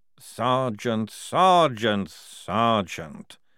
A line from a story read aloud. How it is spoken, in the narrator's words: said Frock wearily